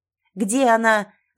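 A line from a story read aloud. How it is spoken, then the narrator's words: Yelling in strange voice. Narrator (Russian): заорал не своим голосом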